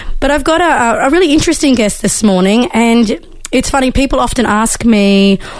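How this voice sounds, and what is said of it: Hoarse, nearly lost voice. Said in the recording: “I'm sounding a bit different this morning because I've almost lost my voice”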